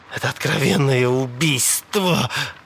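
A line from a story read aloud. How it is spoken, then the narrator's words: Forced out. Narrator (Russian): выдавил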